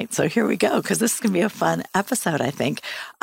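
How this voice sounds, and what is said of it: Voice sounds a little funny. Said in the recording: “My voice is a little funny tonight. I have really bad asthma and it's gone crazy”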